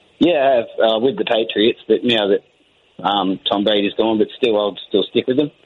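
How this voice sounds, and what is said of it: Australian accent. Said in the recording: “I love that Australia accent ... Beautiful accent.”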